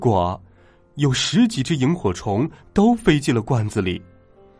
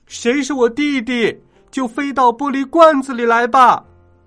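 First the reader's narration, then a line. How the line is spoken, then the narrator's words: Loud shout. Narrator (Chinese): 大声喊道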